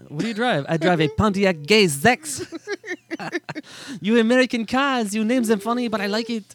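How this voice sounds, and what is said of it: German accent impression, sounds French. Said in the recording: “You sound French. ... That's my best German impression. It sounds French.”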